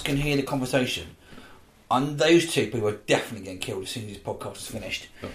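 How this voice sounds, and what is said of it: Usual voice. Nothing is said of it.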